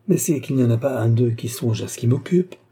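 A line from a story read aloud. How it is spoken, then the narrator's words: Countess exclaiming. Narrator (French): s'écria la comtesse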